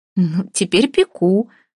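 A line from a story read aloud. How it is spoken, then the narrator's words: Laughing. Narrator (Russian): рассмеялась Вася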